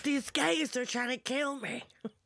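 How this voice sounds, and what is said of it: Imitates another person's voice. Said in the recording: “do my best Jennifer Coolidge impression”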